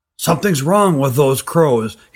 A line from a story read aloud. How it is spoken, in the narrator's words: he said hoarsely